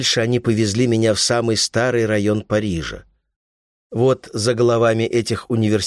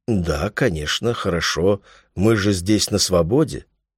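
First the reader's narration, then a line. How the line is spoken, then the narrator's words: Uncertain voice. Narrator (Russian): Я говорю неуверенным голосом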